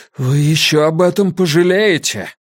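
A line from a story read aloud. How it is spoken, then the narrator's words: Strained, forced out. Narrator (Russian): отца, который выдавил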